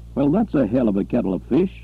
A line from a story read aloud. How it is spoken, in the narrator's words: Butler laughed harshly